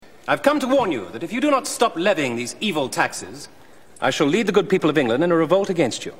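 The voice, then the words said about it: English accent. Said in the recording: “I can speak with an English accent.”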